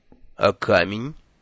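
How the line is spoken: Cold reminder. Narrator (Russian): холодно напомнил Лонли Локли

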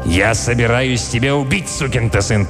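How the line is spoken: Angry growl. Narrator (Russian): прорычал Милтон

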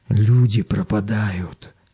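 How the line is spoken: Whisper. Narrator (Russian): шепотом сообщил коренастый челнок

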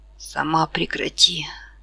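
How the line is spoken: Hoarse rasp. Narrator (Russian): прохрипела она

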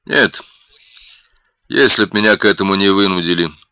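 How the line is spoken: Calm. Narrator (Russian): спокойно произнес Ник

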